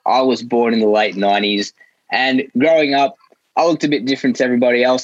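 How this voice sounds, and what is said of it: Australian accent. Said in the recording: “I had this accent. As you can probably tell, I'm not American. I'm Australian. But I don't sound Sri Lankan”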